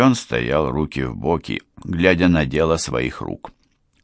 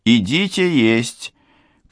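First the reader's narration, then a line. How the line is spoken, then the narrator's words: Shout. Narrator (Russian): крикнула она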